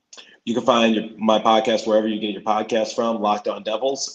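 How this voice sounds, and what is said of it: Hoarse, worn-out voice. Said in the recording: “my voice is a little hoarse. I did a lot of play-by-play over the weekend. And also, I was doing a lot of screaming at the basketball game. So my voice is kind of dead right now.”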